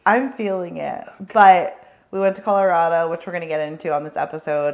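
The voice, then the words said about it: Hoarse, sultry voice. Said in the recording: “sexy voice... you know that I've had a hoarse voice for 2 days... it came out very sultry when the microphone came on... sultry voice”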